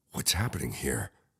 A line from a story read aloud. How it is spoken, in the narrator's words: I whispered to Trish